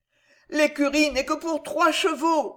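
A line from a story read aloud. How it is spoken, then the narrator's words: Groaning innkeeper. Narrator (French): gémit l'aubergiste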